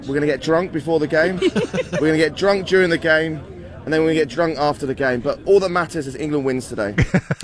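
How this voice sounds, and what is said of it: Notable accent. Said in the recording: “Great accent.”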